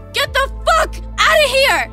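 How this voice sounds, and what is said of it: Yelling. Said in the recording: “Stop yelling”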